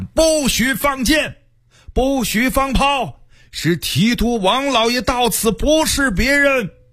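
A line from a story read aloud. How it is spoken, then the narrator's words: Shouting up loudly. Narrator (Chinese): 有人向城上大喊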